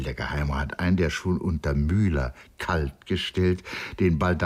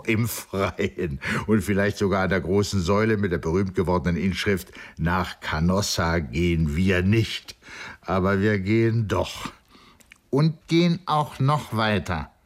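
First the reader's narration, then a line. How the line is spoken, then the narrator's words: Laughing. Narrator (German): lachte Saint-Anno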